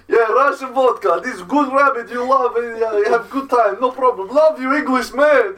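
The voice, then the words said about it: Put-on Russian accent. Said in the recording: “It's a really good accent... I do good Russian accent.”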